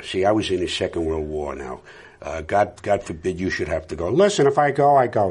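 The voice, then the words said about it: Older-generation New York accent. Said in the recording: “there's a New York accent that is a little younger. This one is a little younger than the one that I would associate with my father and my uncles, the older guy. The older guys would talk like this.”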